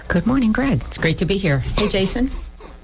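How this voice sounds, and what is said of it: Whispering. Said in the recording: “Why are y'all whispering?”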